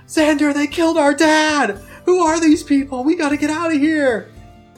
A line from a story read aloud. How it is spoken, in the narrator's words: You hear Zane yell